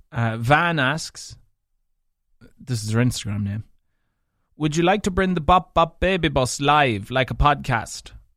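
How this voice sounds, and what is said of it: Mixed northwest Irish accent. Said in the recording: “this mutt of an accent ... not having a true Leitrim accent ... a mix of primarily Donegal, so primarily Leitrim. Then the next biggest mix would be Donegal. Then there'd be a spicen of Sligo, and there'd be a spicen of Fermanagh”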